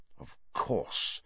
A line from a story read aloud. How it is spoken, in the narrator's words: Sirius muttered